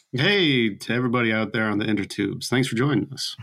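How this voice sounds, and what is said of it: Deep announcer-style radio voice. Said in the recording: “That's a radio voice you got there, man. That's really good.”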